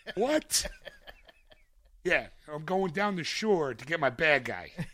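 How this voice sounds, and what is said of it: Put-on Philadelphia accent. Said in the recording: “Does he do the British accent? Nope. Philadelphian accent.”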